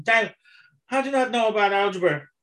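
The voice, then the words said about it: Impression of an Irish man. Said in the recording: “Who was the Irish bloke with the ponytail? ... I'm doing an impression.”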